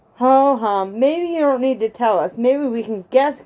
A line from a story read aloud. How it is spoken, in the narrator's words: cried Benny